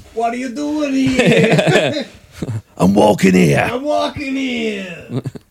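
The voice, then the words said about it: Thick guttural New York accent. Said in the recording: “a thick, like guttural New York accent”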